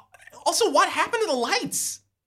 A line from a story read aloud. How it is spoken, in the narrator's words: Jacob Mad gasps